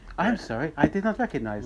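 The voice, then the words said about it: Bad put-on Australian accent, Siri-like. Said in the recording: “worst Australian accent of all time”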